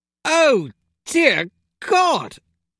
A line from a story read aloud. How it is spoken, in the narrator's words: cried